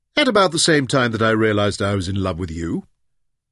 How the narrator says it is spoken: laughed back

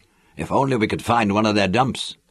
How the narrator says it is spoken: Laren muttered

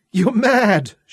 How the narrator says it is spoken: she laughed breathlessly

